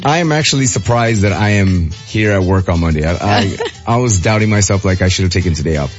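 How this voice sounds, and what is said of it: Hoarse, strained, nearly lost voice. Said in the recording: “my voice is gone too ... Your voice is gone too.”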